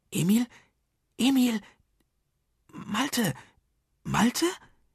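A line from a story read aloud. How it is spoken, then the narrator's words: Calling softly across. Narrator (German): rief er leise zu den beiden hinüber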